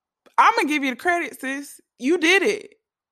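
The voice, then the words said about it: Loud, yelling delivery. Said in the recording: “I'm sorry if I'm yelling”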